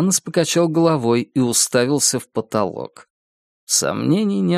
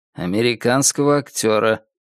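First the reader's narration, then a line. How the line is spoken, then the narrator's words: Gloomily clarified. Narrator (Russian): мрачно уточнил Гитанос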